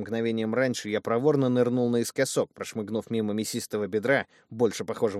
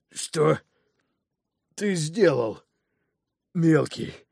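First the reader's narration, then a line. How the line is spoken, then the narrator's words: Breathless wheeze. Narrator (Russian): прохрипел он, силясь унять внезапно возникшую одышку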